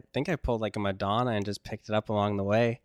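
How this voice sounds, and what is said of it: Canadian accent. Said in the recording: “How did you pick up a Canadian accent?”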